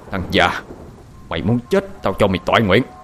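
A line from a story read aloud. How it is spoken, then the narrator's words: Harsh menacing. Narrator (Vietnamese): Hai Phúc gằn giọng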